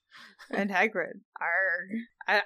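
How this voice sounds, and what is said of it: Put-on pirate accent. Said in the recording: “this was supposed to be Hagrid and not a pirate, but maybe it's the pirate version of Hagrid ... Pirate Hagrid ... I don't think I can maintain that accent the entire time”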